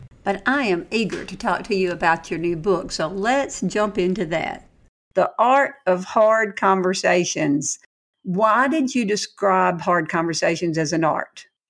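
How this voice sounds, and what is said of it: Southern American accent. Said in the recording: “the Southern accent coming through”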